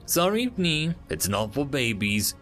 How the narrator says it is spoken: Dambri chuckled

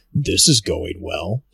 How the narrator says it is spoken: T'Lorn rumbles

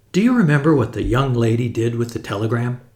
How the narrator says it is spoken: Henry gasped and spoke

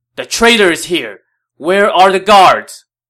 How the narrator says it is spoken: Wang Yun now shouted

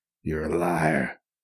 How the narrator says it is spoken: he rasped

